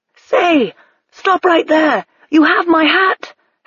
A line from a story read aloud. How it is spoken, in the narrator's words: Hackworth shouted